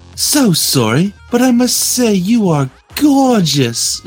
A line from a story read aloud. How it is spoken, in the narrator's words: she gasped